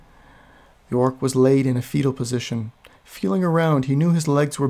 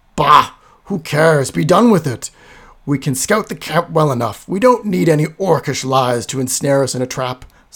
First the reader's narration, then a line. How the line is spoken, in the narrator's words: snarled Garthur